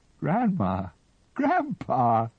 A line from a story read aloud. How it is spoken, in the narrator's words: sobbed David Lustig